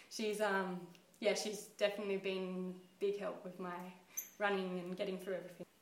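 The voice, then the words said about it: Teary, emotional voice. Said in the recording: “I don't know why I'm getting teary,”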